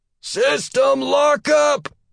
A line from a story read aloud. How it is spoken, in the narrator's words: a signal officer called out